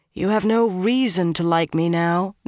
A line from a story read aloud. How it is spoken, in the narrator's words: Nynaeve said miserably